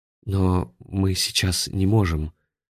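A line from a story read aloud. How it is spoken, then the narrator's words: Timid remark. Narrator (Russian): робко заметил Афанасий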